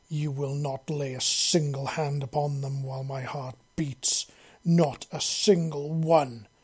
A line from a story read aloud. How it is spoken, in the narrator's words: Liam snarled menacingly